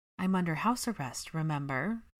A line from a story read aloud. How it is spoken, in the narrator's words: Hermione sighed heavily